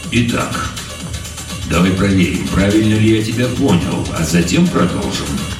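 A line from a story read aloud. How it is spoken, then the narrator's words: Calm. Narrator (Russian): спокойно произнес полковник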